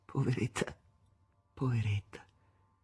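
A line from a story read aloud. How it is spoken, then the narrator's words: Murmured. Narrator (Italian): mormorava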